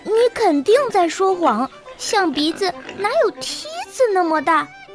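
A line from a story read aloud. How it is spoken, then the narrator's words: Laughing, incredulous. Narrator (Chinese): 奥利和比亚笑个不停，他们根本不相信加尼诺的话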